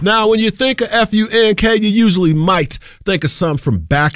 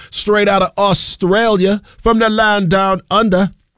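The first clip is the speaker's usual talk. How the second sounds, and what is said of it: Bad put-on Australian accent. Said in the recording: “Pardon me for that trash accent”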